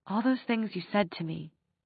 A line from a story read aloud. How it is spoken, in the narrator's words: she said in a half whisper